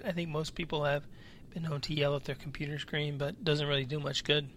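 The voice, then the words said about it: Slightly raspy, tired voice. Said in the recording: “I do have a little bit of a raspy voice today just because I'm tired”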